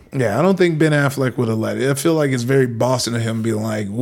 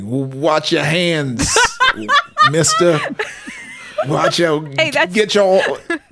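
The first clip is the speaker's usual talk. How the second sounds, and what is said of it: Put-on Boston accent. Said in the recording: “A perfect Boston accent. Flawless. ... M has not been happy about my Austin ... my Boston accent”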